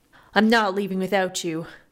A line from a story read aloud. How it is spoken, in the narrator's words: Olivan said, though his tone was cold